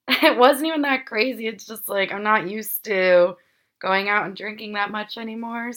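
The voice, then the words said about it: Weak, worn-out voice. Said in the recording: “my voice is just so not there like it normally is”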